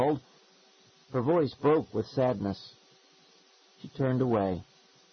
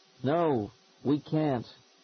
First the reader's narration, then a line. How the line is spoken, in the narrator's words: Seth called sadly